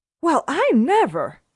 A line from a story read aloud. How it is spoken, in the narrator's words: she exclaimed